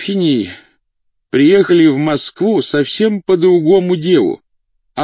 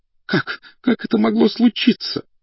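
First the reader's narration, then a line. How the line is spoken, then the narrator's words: Crying out, weeping. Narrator (Russian): вскричала она, и по очаровательному, хоть и распухшему от рыдания лицу, потоком хлынули крупные слезы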